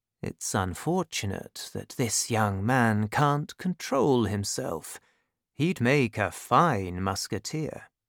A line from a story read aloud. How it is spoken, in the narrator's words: he said to himself quietly